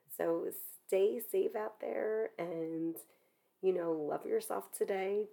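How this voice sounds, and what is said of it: Voice sounds unwell and strained. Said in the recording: “I know I don't sound as focused as I normally am ... I hope that the next time that I'm chatting with you, my voice sounds a little bit better.”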